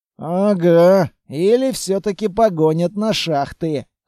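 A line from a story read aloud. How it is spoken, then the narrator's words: Wry snort. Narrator (Russian): хмыкнул Петрович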